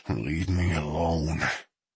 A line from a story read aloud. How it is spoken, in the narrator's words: Moxie said through clenched teeth